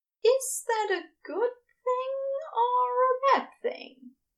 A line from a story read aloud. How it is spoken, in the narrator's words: Ezra asked hesitantly